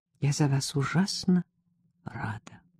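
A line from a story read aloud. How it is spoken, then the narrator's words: Quiet. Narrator (Russian): сказала я тихо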